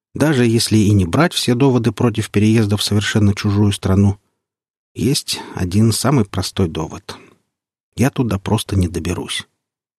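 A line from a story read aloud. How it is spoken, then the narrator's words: Sighing. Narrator (Russian): добавил Сергей Петрович, вздохнув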